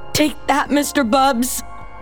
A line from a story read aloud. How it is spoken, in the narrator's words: Micaela called out